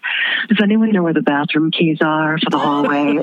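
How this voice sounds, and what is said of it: Put-on voiceover character voice. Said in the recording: “that's not your voice... She's totally in a voiceover character”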